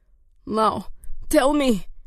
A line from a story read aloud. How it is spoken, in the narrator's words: gasped